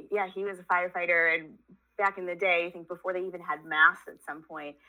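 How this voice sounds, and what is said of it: New York accent. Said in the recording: “I grew up in New York. If anybody's savvy, they can pick up on the accent.”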